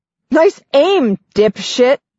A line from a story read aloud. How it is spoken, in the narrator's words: Nine shouts, laughing